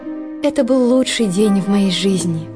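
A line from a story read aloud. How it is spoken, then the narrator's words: Sighing. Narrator (Russian): только и вздохнула она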